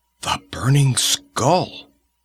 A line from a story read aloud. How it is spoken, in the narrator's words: It was a shuddering whisper of fear from the people of Tecuhltli